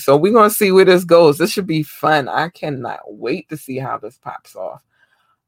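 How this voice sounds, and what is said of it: Strained, hoarse voice. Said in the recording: “I'm losing my voice a lot lately.”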